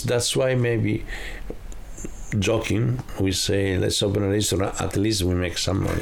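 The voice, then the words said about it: Italian accent. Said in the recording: “people can probably tell from your accent that you're a real Italian, and maybe they can even tell that you're a real Romano”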